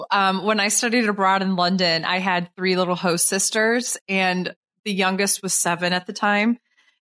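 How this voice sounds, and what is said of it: Canadian-Minnesotan accent, flat nasal vowels. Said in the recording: “I sound like a mix of a Canadian and Minnesotan and also like Northeastern, just flat vowels, nasal.”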